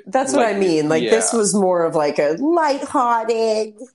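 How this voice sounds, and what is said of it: New York Jewish agent character voice. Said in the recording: “doing this voice ... you thought agent and you thought Jewish ... And New York”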